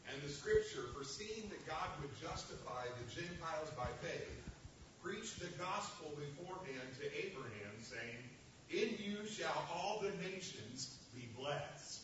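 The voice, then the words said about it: Rich, broadcast-style reading voice. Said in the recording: “You have a great radio voice”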